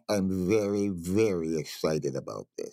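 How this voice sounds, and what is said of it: Dopey dog character voice. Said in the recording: “that in your dopey dog voice”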